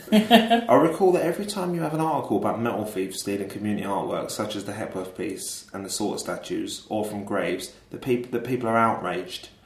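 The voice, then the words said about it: Put-on Rotherhithe London accent. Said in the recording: “Do the Rotherhithe accent.”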